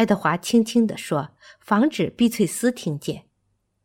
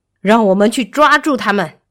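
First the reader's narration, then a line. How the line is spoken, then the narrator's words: Roaring. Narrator (Chinese): 埃伯特咆哮着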